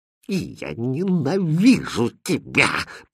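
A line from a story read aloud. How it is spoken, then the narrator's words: Hissed, princess. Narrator (Russian): прошипела принцесса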